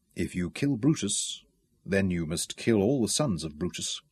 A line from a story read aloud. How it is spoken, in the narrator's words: he said quietly